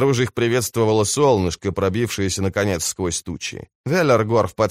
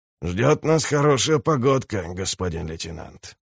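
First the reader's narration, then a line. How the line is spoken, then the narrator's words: Contented grumble. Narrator (Russian): проворчал он с удовольствием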